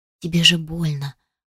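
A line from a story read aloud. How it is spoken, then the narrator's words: Whispered between kisses. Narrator (Russian): прошептала в перерывах между поцелуями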